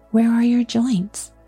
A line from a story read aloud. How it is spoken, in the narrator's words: Dorothy asked anxiously